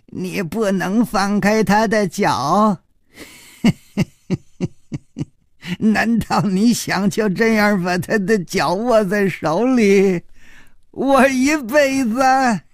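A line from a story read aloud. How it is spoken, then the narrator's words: Suddenly smiling. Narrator (Chinese): 他却忽然笑眯眯地说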